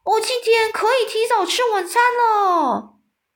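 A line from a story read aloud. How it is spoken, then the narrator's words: Maniacal laughing roar. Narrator (Chinese): 一边叫嚣着，狂笑嘶吼的说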